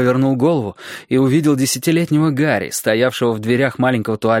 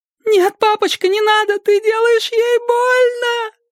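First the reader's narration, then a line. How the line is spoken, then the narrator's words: Shriek. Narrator (Russian): взвизгнула Эллен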